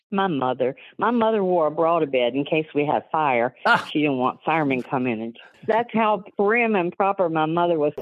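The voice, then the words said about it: Southern countrified radio character voice. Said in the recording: “Rita Bentley as Betty Bodine, her popular radio character. Her southern accent and countrified manner”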